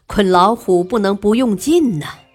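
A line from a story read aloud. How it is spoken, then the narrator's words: Laughing. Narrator (Chinese): 曹操笑道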